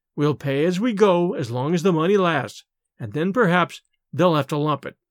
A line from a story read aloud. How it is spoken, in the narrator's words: Miss Lydia would calmly go on with her sewing and say